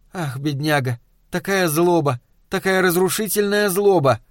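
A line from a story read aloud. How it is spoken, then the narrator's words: Labored sigh. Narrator (Russian): Флоренс с трудом вздохнула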